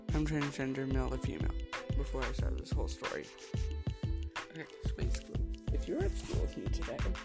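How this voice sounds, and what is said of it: Worn-out, strained voice. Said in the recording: “my voice is dead”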